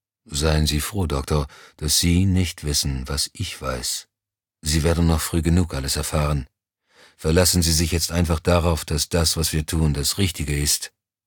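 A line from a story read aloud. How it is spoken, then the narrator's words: Toneless. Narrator (German): erklärte tonlos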